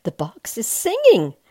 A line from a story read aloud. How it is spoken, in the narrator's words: chirped the birds